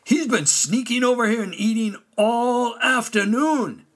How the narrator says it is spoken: he exclaimed

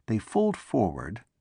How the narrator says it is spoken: said Kleeg quietly

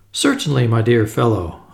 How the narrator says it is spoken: I said cheerfully

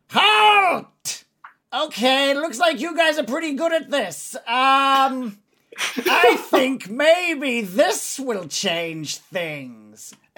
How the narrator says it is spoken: you can hear the goblin leader sort of yell out

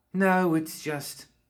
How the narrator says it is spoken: she sighed

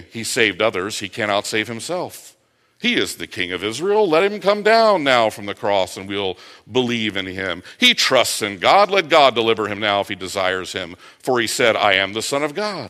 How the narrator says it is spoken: taunting him and mocking him, saying

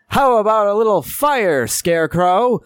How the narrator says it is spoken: mockingly shouts out

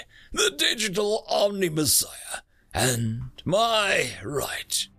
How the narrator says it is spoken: From the fog was roared the reply

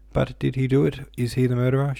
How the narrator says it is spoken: she cried, all of a sudden hysterically

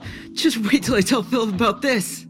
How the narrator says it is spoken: exclaimed Ajax

